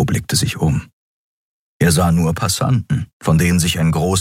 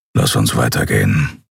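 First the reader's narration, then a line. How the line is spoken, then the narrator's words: Grumbling. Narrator (German): brummte er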